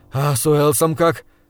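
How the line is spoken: Breathless. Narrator (Russian): выдохнул я

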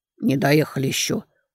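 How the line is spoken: Sullen mutter. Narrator (Russian): угрюмо пробормотали

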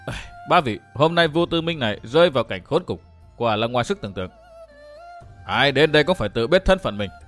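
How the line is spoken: Soft lament. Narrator (Vietnamese): Bỗng Vô Tư Minh khẽ than

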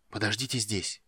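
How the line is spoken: Whispered. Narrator (Russian): прошептал он

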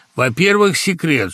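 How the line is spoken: Stern. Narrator (Russian): строго говорил Гага

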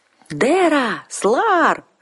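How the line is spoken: Shrieking voices from above. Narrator (Russian): завизжали, загласили сверху

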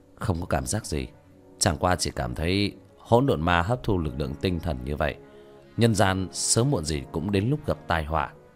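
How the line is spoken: Light smiling tone. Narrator (Vietnamese): Tiểu thất khẽ mỉm cười

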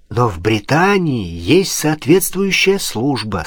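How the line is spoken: Plain. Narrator (Russian): сказал Пушкин

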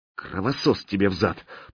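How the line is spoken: Muttered. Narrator (Russian): пробормотала Катя

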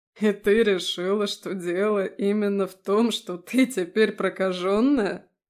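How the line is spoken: Laughing. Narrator (Russian): он смеялся

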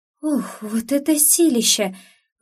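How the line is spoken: Breathless woman. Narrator (Russian): выдохнула незнакомка

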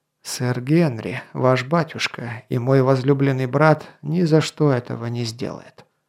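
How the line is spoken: Soft objection. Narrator (Russian): мягко возразил Гавен

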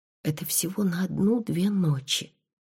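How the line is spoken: Whisper. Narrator (Russian): прошептала я

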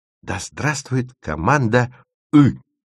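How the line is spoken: Loud whispered exclamation. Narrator (Russian): громким шепотом возгласила Стася

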